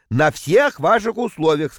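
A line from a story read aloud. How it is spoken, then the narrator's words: Plain. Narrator (Russian): сказал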